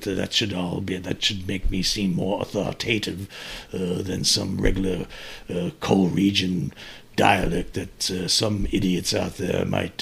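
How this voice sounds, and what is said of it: Put-on English accent. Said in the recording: “using an English accent ... That's hurting my voice after a while”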